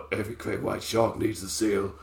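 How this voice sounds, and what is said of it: Put-on deep voice. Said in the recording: “I should do voices like that ... Why would I put on that voice? ... deep voice”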